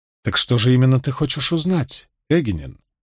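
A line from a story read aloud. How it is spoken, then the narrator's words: Plain question. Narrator (Russian): спросила Илайн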